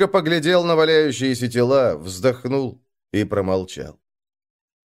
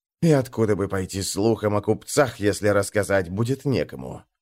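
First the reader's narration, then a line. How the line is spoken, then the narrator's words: Scoffing hmph. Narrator (Russian): хмыкнул Жмей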